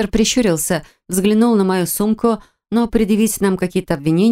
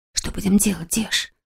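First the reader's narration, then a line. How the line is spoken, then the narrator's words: Whisper. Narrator (Russian): прошептала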